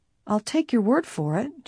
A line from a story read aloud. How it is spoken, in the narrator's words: she said quietly